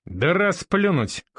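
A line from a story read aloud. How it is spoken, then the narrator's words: Laughing. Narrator (Russian): хохотнул Андрей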